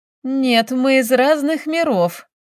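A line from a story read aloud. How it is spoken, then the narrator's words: Speaking through laughter. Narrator (Russian): выговаривает сквозь смех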